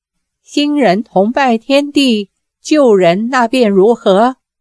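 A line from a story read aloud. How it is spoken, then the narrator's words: Booming laugh, ringing voice. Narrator (Chinese): 裘千尺哈哈大笑，只震得烛影摇红，屋瓦齐动，朗声说道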